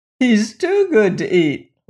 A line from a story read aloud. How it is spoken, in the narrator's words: laughed Chick the Cherub